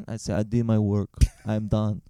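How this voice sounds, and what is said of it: Put-on accent. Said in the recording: “I would also get an accent.”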